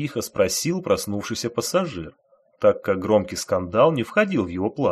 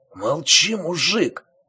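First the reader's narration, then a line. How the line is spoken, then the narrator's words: Hoarse whisper. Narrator (Russian): хрипло прошептал вор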